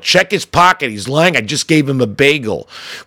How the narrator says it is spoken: I leap from my bench and yell

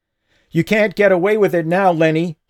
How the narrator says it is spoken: yelled

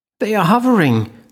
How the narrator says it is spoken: Linny cried

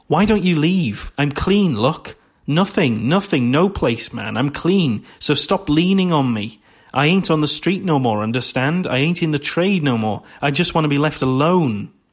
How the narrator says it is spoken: The exotic dancer exclaims

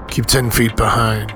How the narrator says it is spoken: muttered 9 Knives

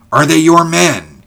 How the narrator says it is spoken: he repeated impatiently as Ulrich did not answer

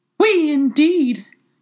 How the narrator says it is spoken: cried the mouse, who was trembling down to the end of its tail

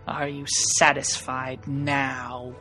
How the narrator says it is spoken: She hisses at you

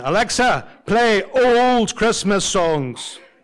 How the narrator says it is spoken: My brother shouts again

